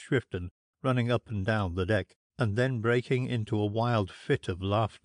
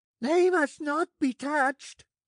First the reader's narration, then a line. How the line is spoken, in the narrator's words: screamed Shrifton